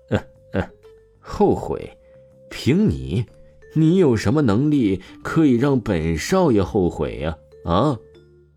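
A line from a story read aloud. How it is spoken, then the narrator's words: Laughing, deeply mocking. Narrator (Chinese): 柳浩天大笑了起来，无比讽刺王峰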